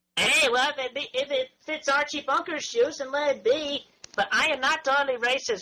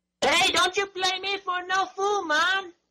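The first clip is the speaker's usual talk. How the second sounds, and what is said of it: Put-on Jamaican-style accent. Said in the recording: “that just be an imitation of a black person or somebody from Jamaica.”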